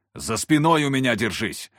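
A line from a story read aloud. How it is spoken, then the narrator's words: Barked command. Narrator (Russian): рявкнул я Захару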